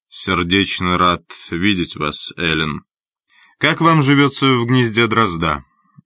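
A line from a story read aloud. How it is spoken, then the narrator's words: Calm. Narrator (Russian): спокойно произнес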